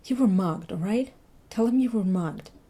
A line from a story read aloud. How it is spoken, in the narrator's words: said urgently